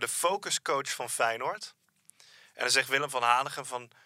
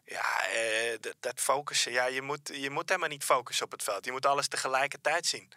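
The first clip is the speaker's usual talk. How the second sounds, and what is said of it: Bad Willem van Hanegem impression. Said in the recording (Dutch): “Dat is een hele slechte Willem van Hanegem ... Dat is wel de slechtste Willem van Hanegem die ik ooit heb gehoord. Alles eraan. Dus accent, timbre.”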